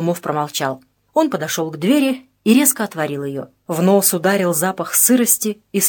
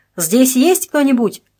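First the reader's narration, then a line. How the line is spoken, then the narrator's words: Shouting. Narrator (Russian): крикнул Холмов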